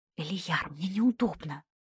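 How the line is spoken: Close, hushed whisper. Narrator (Russian): прошептала ему в шею

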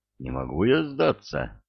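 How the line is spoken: Glum refusal. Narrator (Russian): уныло отказался Икин

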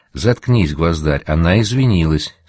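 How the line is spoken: Plain. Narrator (Russian): сказала Пима

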